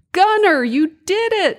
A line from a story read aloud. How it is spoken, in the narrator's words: shouted Santa excitedly